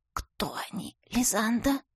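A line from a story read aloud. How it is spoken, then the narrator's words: Hoarse whisper. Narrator (Russian): Голос мой осип, и потому вопрос я произнесла шепотом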